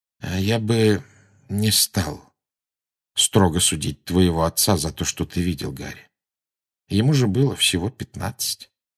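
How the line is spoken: Quiet. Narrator (Russian): Люпин негромко сказал

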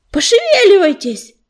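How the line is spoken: Shouted. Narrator (Russian): крикнул Ежевика

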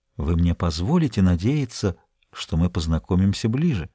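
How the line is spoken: Whispered. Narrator (Russian): Он прошептал

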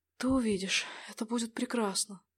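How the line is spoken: Whisper. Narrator (Russian): прошептал Джонатан

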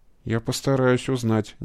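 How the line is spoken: Uncertain speech. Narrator (Russian): неуверенно сказала Вера

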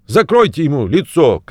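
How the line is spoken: Shouted. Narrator (Russian): крикнул кто-то

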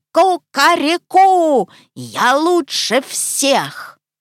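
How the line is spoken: Loud squawking shout. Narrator (Russian): Крикнул гусь, гаркнул во все пеликанье горло

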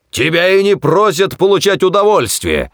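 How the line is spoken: Barking. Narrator (Russian): рявкнул он

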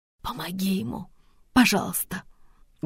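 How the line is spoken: Hoarse and quiet. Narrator (Russian): Голос сестры хриплый и тихий

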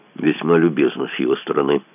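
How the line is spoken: Grumble. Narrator (Russian): проворчал Мазур

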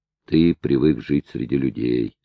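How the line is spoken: Sad reply. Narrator (Russian): ответил кожаный чулок печально

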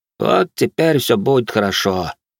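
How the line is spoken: Pleased voice. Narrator (Russian): довольным голосом произнес он

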